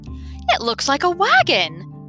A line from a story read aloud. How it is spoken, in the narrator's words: cried Milo excitedly